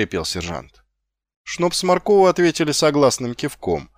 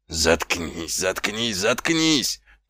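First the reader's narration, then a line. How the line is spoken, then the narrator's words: Groaning. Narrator (Russian): простонал сержант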